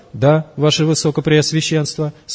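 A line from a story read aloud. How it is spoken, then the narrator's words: Quiet embarrassed answer. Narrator (Russian): смутившись тихо, ответил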